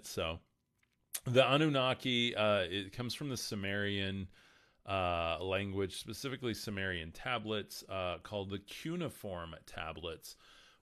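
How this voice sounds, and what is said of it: Slightly rough, strained voice. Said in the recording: “I'm trying to lose my voice ... my voice is starting to get a get a little grumble in it”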